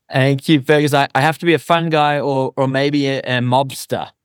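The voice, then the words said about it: Noticeable non-American accent. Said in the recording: “when I heard his accent, I'm like, he is a fun guy”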